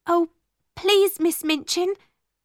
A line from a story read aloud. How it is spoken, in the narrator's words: cried Ermengarde